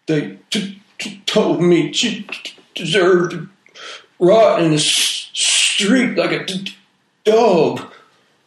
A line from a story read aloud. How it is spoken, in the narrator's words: he said, his voice thick with sobs